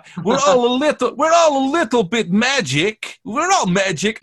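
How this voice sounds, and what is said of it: Imitates another person's accent. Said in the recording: “I don't know what accent I was going with there. I'm a bit like Anya Taylor-Joy now.”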